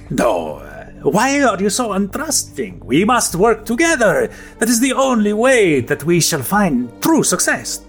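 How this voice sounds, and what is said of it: Creepy accented character voice. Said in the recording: “it's your accent. It's just real creepy.”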